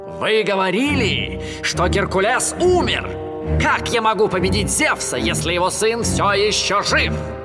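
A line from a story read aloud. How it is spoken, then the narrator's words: Panicked, pained shouting. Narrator (Russian): Набросившись на боль и панику, он закричал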